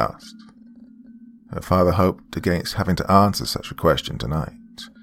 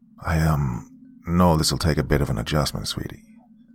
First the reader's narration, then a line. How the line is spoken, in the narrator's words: he replied softly